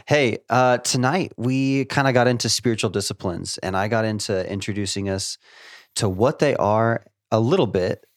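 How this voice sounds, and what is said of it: Slightly odd voice from a cold. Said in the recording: “I am trying to get over a cold... If I sound a little weird”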